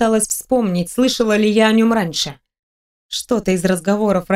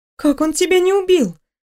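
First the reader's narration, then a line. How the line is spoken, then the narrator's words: Surprised exclamation. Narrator (Russian): Удивленно воскликнула я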